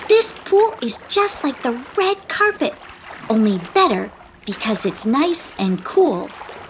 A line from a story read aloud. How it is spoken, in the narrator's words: exclaimed Teeza